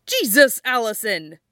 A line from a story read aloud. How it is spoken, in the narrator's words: Scott blurts out